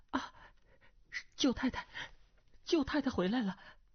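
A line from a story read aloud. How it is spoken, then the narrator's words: Startled, trembling cry. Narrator (Chinese): 突然之间，啊的一声惊呼，颤声道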